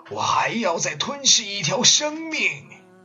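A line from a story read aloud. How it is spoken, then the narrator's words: Roaring. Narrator (Chinese): 火神咆哮着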